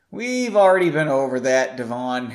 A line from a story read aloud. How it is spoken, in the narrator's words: Henry said, sighing